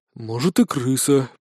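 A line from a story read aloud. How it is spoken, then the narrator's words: Nearby muttering, different voice. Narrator (Russian): пробормотал кто-то другим голосом, явно находящийся к двери ближе, чем первый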